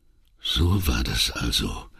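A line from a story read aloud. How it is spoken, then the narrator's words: Trembling murmur. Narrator (German): murmelte er endlich mit zitternder Stimme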